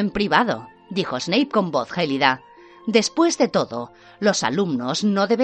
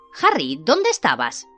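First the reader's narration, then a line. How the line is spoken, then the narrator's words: Shrill question. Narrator (Spanish): preguntó Hermione con voz aguda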